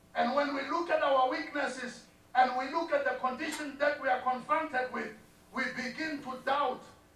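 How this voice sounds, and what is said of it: Thick African accent. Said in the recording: “thick African accent”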